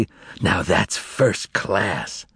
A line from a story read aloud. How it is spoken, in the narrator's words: the makeup man whispered ecstatically